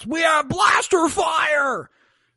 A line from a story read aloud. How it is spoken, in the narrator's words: one of the workers below shouts